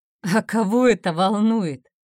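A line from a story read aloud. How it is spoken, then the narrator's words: Laughing. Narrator (Russian): рассмеялся доктор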